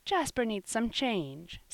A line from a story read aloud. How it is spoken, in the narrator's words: said Sister Marion kindly